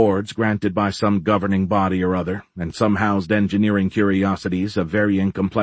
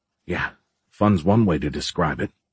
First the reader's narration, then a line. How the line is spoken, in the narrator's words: Giles muttered